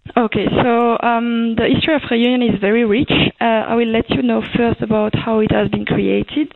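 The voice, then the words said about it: Strong French accent. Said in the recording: “you can hear my French accent ... Still very strong, right?”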